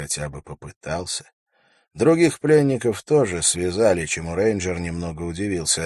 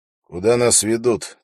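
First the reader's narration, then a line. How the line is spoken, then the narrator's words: Demanding question. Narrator (Russian): требовательно спросил Холт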